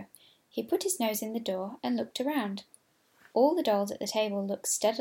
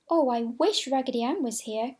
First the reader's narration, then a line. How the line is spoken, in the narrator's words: cried the French doll